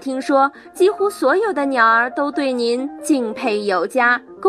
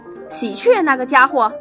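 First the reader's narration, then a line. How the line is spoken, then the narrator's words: Furious cursing, crow. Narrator (Chinese): 乌鸦便怒发冲冠，张口就骂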